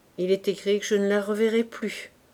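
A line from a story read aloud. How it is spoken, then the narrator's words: Sighing to himself. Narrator (French): se dit-il avec un soupir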